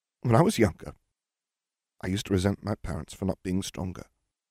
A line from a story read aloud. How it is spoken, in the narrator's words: Nev muttered